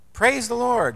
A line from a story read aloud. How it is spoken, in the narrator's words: she cried out